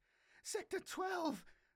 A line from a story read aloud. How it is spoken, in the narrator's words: Gasping for breath, she shouted at Rost